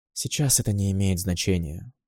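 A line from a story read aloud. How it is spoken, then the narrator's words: Tired voice. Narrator (Russian): усталым голосом проговорила Бастилия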